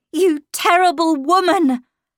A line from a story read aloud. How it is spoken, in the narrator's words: I heard myself shrieking at her